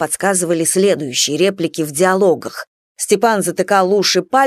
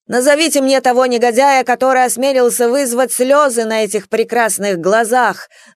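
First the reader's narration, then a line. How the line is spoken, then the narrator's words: Theatrical wailing in silly voice. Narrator (Russian): завопил Леха дурным голосом слова Д'Артаньяна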